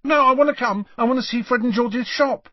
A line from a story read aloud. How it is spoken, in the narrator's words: said Ron hastily